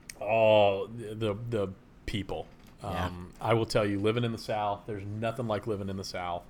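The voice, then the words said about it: Thick Southern US accent. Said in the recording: “my accent's gotten a little thicker since I moved back down South”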